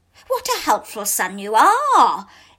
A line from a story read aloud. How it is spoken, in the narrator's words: exclaimed the man